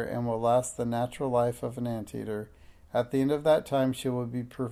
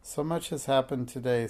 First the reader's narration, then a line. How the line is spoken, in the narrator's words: sighed Minx